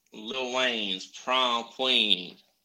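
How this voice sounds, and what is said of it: Imitates another person's voice. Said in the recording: “Oh, we got the accent going. ... If I close my eyes, it's Lil Wayne ... So good at that.”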